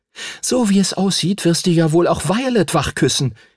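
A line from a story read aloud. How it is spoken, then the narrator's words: Angry shout. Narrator (German): rief sie aufgebracht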